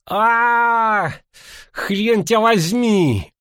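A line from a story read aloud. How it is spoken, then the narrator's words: Howling. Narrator (Russian): взвыло на столе Мисли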